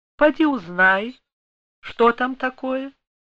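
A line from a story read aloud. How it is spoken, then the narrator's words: Outwardly calm, suppressed agitation. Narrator (Russian): С трудом сдерживая волнение, Екатерина Алексеевна сказала наружно спокойным голосом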